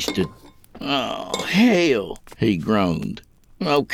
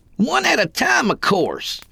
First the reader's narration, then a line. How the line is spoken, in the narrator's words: he bellowed